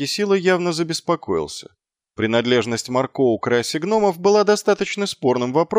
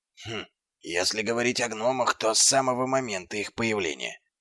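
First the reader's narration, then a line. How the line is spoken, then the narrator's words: Whisper. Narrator (Russian): прошептал Дубинс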